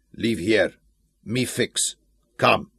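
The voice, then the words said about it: Heavy foreign accent, broken English. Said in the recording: “answered in a heavy accent”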